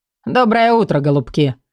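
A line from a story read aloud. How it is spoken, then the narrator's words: Cheerful. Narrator (Russian): обратился бодро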